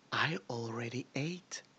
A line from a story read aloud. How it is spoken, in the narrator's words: she said, her voice a low, satisfied hum